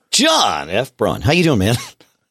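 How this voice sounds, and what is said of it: Announcer-style radio voice. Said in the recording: “I don't let my radio voice out all that often. I don't know why it came out right there.”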